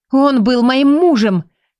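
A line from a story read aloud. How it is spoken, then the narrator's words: Angry shout. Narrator (Russian): крикнула в сердцах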